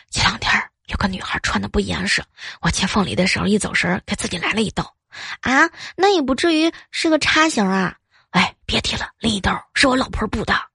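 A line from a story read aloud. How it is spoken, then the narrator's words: Quiet, low voice. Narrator (Chinese): 老板小声的说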